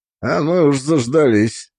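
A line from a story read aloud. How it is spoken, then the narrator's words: Grumbling. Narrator (Russian): пробурчал Дзюбов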